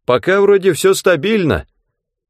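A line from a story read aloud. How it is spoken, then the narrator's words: Shouted. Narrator (Russian): крикнул Рэндом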